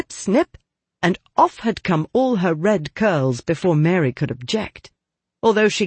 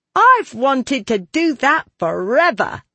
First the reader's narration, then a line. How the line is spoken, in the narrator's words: said Diana triumphantly